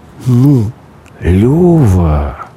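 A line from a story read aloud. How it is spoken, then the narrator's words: Reproachful drawn-out. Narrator (Russian): коризненно протянул тот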